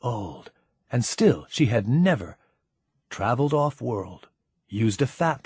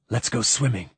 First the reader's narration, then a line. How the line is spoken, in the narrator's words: said Ciri